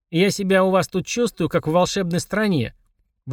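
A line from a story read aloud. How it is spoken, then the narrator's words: Grumbling. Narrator (Russian): ворчала она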